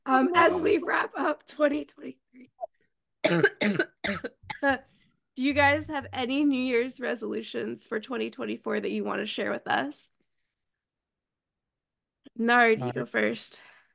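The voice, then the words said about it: Strained, nearly lost voice. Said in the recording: “almost lost my voice.”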